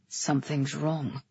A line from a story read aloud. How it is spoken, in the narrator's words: Galen murmured